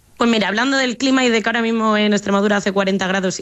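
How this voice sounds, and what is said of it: Slight Madrid Spanish accent. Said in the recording (Spanish): “el acento es un poco tirando de Madrid”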